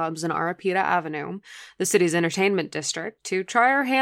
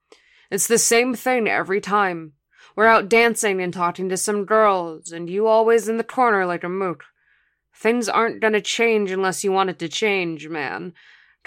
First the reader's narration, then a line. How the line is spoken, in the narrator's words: Kari said sternly